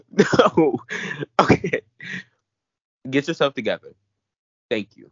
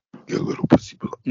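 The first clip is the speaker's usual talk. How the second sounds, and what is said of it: Terrifying demonic voice. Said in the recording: “Why did I do it in a demonic voice? ... That was literally terrifying.”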